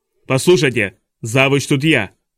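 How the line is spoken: Harsh bark. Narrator (Russian): рявкнул Нира

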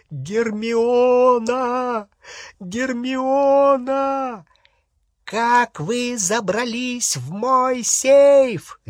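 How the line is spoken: Shrieking. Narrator (Russian): визжала Беллатриса

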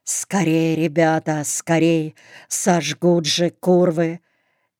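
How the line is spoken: Hoarse wheeze. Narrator (Russian): Борька все хрипел

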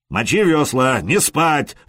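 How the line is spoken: Roar. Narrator (Russian): взревел Простен

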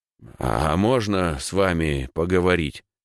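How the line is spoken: Hoarse question. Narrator (Russian): спросил, охрипнув

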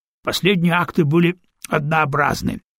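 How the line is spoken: Snorting remark. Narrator (Russian): хмыкнул Шо

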